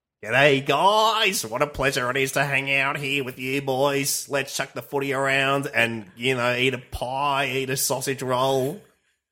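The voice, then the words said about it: Put-on Australian kid accent. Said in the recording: “pretend to talk like an Aussie kid”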